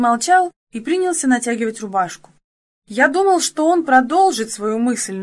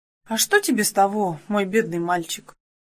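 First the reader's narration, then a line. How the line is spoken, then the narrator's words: Sad reply. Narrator (Russian): грустно отозвался я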